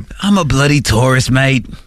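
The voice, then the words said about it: Put-on Australian accent. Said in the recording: “We're doing like Australian accents”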